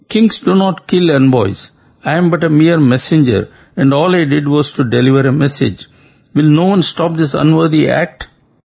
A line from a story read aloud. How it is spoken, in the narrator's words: Sukha wailed